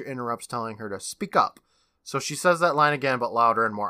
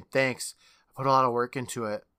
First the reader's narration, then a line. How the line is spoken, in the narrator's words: Rachel sighs, saying